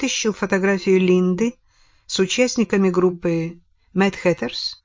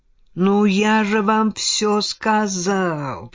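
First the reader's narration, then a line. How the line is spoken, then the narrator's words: Drawled. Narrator (Russian): протянул Мерчант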